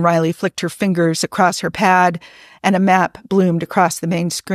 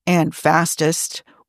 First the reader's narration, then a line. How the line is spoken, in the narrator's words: Ortegas muttered